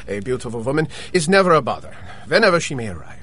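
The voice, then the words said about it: Austrian accent. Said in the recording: “I adore your accent. Are you Dutch? ... No, my dear. Austrian.”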